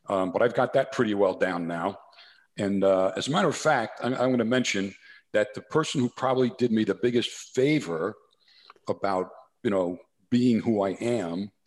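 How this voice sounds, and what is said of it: New Jersey accent. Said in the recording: “my New Jersey accent ... he's got that New Jersey, that soprano thing going on”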